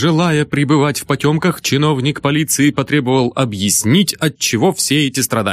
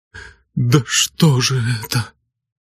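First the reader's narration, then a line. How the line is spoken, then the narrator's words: Shaken mumble. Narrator (Russian): Нил, кое-как овладев собой, только пробормотал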